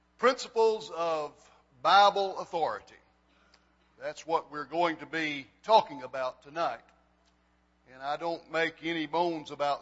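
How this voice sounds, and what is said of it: Hoarse voice. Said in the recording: “I'm a little bit hoarse.”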